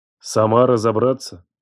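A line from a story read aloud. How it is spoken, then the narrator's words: Cold repetition. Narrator (Russian): Холодно повторил я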